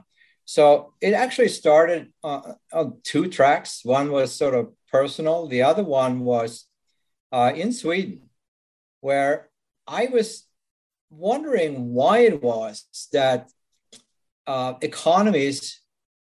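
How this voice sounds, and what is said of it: Swedish accent. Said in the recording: “As you can probably tell from my accent, I wasn't born in this country. I'm Swedish originally.”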